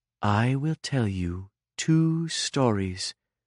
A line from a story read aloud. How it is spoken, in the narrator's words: said Beatrix in a low, slow voice